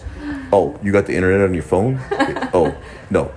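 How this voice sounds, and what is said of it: Imitates a father's voice. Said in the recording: “Imitating my dad ... you sound like Dennis”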